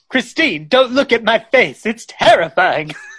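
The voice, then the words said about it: Poor Cary Grant impression. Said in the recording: “Not a great imitation ... no, that was horrible.”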